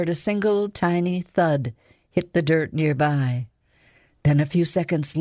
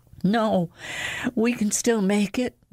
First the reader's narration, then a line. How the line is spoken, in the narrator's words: Lexa breathed